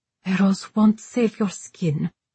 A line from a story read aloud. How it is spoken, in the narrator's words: Safiya muttered